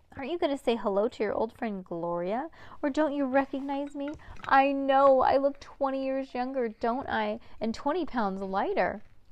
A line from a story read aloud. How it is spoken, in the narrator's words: cried the real estate agent